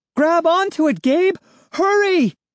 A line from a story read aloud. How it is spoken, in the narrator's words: shouted urgently from high above